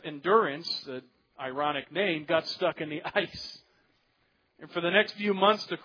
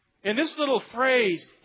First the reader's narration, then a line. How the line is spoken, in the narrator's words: he cried out, that's an expression that means he screamed